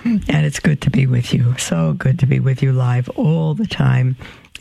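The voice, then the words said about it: Slightly hoarse voice. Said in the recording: “I think I'm a little hoarse this morning.”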